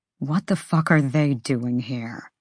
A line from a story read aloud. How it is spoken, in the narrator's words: Tharian growled